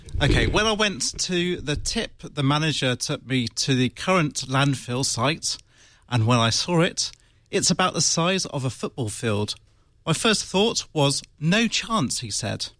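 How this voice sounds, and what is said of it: Put-on British accent. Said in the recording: “With a good, strong accent. ... In your strongest Mancusian. ... My best British accent? ... the guy's from Wales ... Isn't it posh?”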